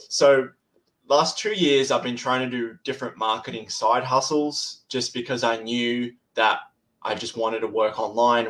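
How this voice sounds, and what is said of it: Australian accent. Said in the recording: “I'm from Australia. That's where my accent's from.”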